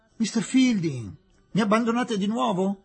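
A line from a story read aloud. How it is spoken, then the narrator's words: Exclaiming. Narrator (Italian): esclamò Aziz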